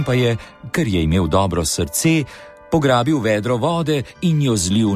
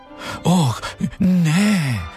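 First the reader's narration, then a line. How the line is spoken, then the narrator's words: Groaning. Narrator (Slovenian): je zastokal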